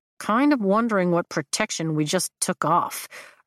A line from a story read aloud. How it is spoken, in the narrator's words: Riddick mumbles